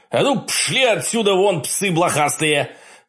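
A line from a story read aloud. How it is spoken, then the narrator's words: Loud commanding bark. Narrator (Russian): Как можно громче рявкнул я, помня, что зверю всегда надо показывать, кто здесь главный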